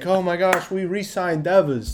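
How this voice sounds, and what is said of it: Poor attempt at Boston accent. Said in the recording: “That's not what a Boston accent. What is a Boston accent? ... That was brutal. ... When I try and do a Boston accent”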